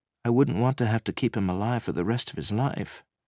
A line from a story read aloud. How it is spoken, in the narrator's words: Vivian said softly